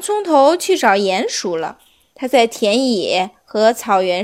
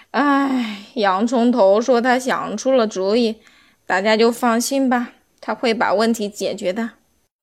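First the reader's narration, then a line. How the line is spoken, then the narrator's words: Sighing old man. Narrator (Chinese): 南瓜老大爷叹气说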